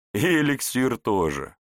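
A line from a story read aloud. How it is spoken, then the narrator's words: Chuckling. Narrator (Russian): хохотнул князь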